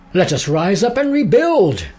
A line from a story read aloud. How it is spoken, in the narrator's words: the people shouted in response